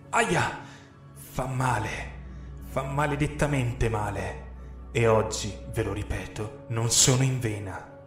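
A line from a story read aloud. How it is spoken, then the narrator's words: Furious growl. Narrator (Italian): Ringhiai furiosa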